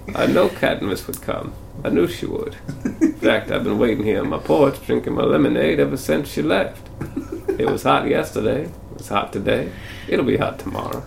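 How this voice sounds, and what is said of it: Imitates another person's voice. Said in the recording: “my Donald Sutherland impression”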